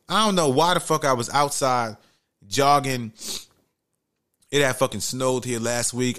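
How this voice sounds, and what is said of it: Raspy, sick-sounding voice. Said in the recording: “I'm kind of sick. ... my voice might be a little raspy. I'm sniffling.”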